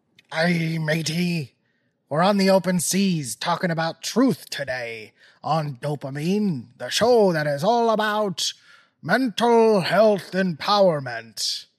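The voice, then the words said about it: Put-on pirate-style accent. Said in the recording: “I'm not sure what accent this is ... I can't do that voice anymore”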